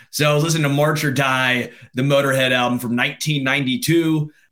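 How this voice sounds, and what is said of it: Slightly rough, gravelly voice. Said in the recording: “my voice was obviously a little bad because I'm sick ... another singer who has a very gravelly voice”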